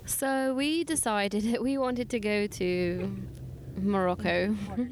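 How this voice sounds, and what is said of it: Put-on British accent. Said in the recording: “did your accent change between Spain and Morocco? ... I just felt inclined at this very moment to indulge myself with a little bit of British accent”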